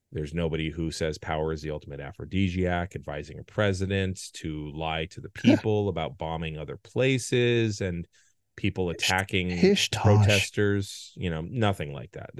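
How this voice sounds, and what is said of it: Sarcastic tone. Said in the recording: “all this sarcasm is unbecoming. ... I don't know why you're using that tone of voice. Such sarcasm.”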